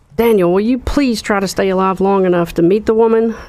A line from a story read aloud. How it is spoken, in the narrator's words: Morgan shouted